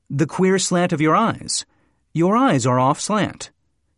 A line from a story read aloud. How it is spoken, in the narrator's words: the Chinaman exclaimed